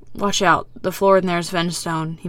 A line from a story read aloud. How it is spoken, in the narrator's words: he mutters